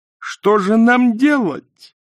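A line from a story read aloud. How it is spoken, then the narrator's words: Wailing. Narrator (Russian): взвыла Канина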